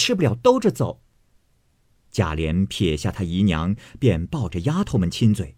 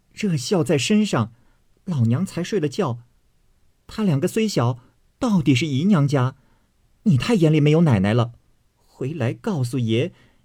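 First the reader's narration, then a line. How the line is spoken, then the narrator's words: Group laughing, indignant. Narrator (Chinese): 众丫头看不过，都笑说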